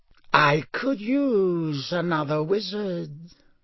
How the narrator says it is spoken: said the cold voice softly

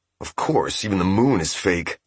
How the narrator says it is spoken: Seiki muttered

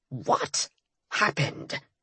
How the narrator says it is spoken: Bones asked in an icy tone

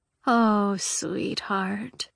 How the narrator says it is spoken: sighed the fate

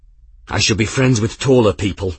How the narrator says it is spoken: Grimm panted

